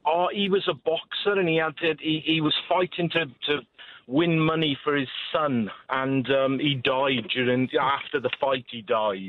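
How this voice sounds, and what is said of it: Welsh accent. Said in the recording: “That Scottish accent's cool. Is that Scottish ... It's Welsh, mate.”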